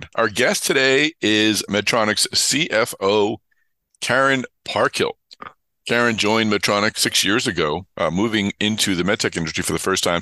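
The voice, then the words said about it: Voice affected by a cold. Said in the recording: “Please excuse uh, my voice. I have a bit of a cold”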